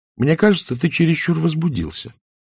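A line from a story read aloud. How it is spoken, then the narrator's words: Calm remark. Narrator (Russian): спокойно заметила анафема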